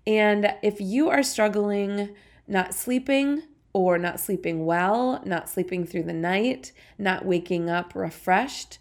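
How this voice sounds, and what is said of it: Congested, sinus-affected voice. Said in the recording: “it was in my throat and now it has moved to my sinuses and I sound a little silly ... excuse my voice”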